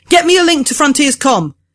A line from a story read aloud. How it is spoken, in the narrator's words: yells